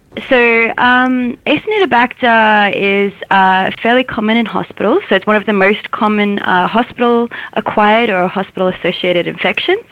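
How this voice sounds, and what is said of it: Australian accent. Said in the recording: “with the Australian accent”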